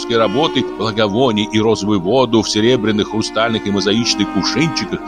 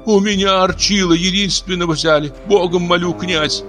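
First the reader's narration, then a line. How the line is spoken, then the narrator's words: Frenzied woman's shout. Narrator (Russian): Иступленно кричала женщина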